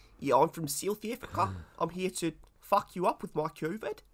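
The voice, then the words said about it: Poor put-on South African accent. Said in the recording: “silly little South African accents ... That was an appalling accent.”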